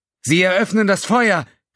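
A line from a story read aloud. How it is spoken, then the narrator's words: Called out. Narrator (German): rief Xef von der Wissenschaftsstation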